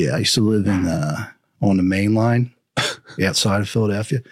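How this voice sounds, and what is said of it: Usual voice. Nothing is said of it.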